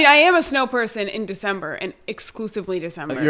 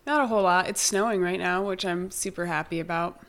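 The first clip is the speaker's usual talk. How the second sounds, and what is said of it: Sarcastic tone. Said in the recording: “I'm being sarcastic.”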